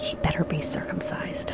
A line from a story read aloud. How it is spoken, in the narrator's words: Catherine muttered